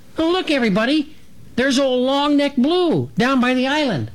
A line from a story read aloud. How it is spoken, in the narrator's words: Dragonfly cut in to exclaim